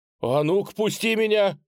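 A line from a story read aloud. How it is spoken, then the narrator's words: Shouting. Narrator (Russian): кричал он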